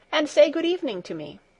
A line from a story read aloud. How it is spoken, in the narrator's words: cried Heidi